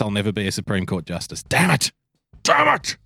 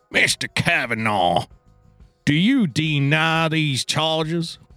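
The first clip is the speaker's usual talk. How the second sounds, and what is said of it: Old Southern man accent. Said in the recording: “great old Southern man accent”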